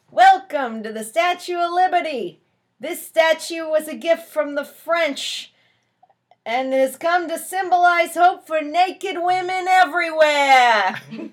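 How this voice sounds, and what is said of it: Put-on New York accent. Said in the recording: “that wonderful New York accent”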